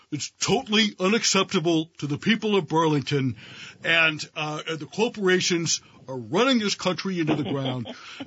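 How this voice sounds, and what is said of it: Imitates another person's voice. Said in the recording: “Your imitation is in the top 1% of the imitations of me.”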